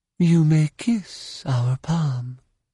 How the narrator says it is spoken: she said in a languid Kuati accent

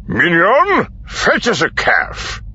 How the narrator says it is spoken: barked

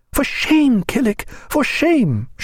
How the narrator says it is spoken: she cried

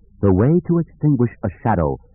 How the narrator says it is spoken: Kilgall said in her calm and confident voice

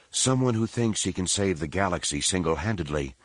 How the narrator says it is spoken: Leia mumbled

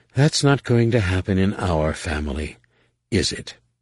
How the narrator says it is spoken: sighed again

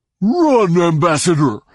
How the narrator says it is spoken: he thundered

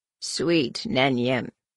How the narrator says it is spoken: croaked

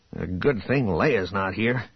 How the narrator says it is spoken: Han muttered

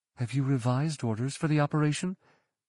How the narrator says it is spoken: whispered

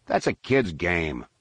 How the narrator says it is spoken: Han replied with a snort

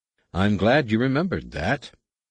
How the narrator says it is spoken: Anakin said dryly

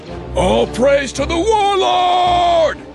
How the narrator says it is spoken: Someone called

